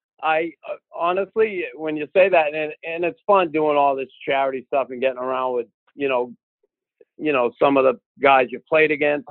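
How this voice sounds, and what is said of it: Boston accent. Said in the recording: “I get that Boston accent”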